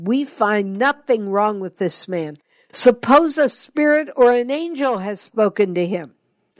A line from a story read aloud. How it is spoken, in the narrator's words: some scribes belonging to the Pharisee party stood up and sharply argued